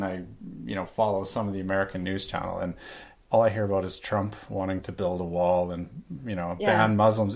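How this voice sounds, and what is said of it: Canadian accent. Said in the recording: “you sound Canadian.”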